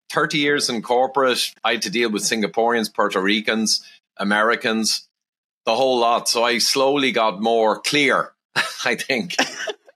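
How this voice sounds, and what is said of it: Irish accent. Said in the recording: “No H's in Ireland ... I love your accent”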